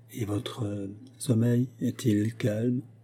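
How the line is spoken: Asked in low voice. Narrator (French): demanda le major Vernon à voix basse

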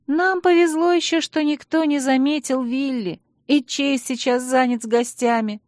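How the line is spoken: Sighed. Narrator (Russian): вздохнула Алекс

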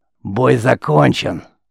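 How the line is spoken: Barking. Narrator (Russian): рявкнул Тамадар

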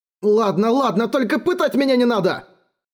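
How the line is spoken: Guard wailing. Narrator (Russian): завопил стражник

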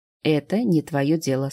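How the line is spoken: Calm reply. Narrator (Russian): спокойно ответила Ингрид

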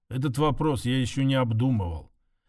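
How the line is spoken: Cold and dry. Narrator (Russian): Лишь холодно и сухо сказал

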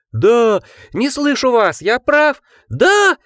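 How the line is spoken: Crowd yelling at full volume. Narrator (Russian): Они вопили во всю глотку, некоторые словно в трансе

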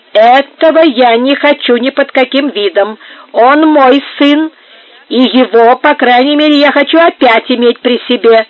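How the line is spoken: Exclaimed. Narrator (Russian): воскликнула Сара Кондора

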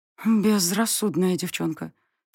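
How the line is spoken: Quiet. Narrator (Russian): тихо проговорила

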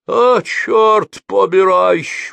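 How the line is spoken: Tearful exclamation. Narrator (Russian): воскликнул он плачущим голосом

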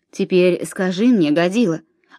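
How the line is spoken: Stern. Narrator (Russian): молвил Белояр строго

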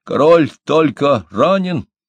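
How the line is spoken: Shouted again. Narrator (Russian): Делафорс крикнул еще раз

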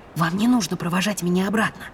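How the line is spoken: Whispered. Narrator (Russian): прошептала я

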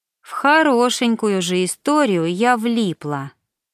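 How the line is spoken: Sad drawl. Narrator (Russian): печально протянула Саша

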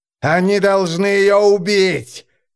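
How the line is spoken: Screaming. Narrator (Russian): завопил Эрастрос

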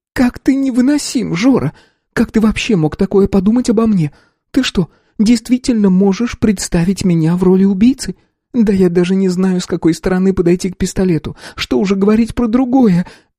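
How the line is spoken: Sister near sobbing. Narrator (Russian): Едва не зарыдала сестра

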